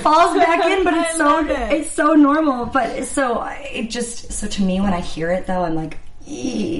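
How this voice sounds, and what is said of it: Usual voice. Nothing is said of it.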